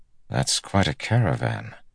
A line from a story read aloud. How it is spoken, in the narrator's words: Bornhold said softly